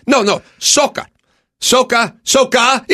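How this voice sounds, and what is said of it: Imitated thick foreign accent. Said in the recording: “with his thick accent and his neck rolls”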